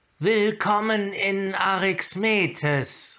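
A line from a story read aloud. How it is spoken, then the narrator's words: Call. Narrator (German): rief sie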